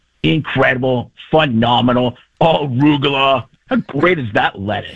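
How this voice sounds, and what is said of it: Jim Rome impression. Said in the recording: “Jim Rome won't acknowledge me ... Caliendo doing an impression of me right now”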